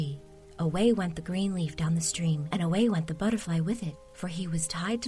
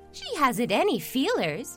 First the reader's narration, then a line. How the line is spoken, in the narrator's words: one cried